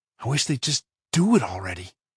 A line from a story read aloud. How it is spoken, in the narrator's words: Josh said in a whisper